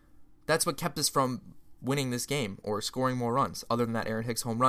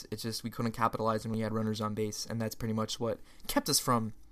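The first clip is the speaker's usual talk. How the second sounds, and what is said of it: Voice cracks mid-sentence. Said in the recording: “that was a weird voice crack”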